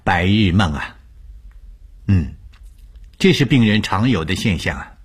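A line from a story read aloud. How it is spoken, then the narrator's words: Calm, faintly smiling. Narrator (Chinese): 吴医生淡淡一笑，对我说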